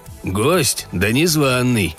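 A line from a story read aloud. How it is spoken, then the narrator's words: Grumbling. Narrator (Russian): проворчал Берг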